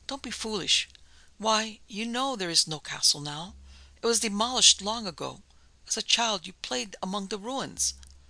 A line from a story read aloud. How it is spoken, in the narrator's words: said her mother brokenly